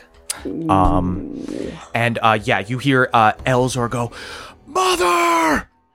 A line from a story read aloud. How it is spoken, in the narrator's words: screams from above